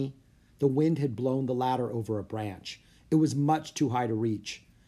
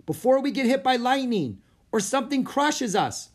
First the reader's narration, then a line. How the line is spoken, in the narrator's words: yelled Jack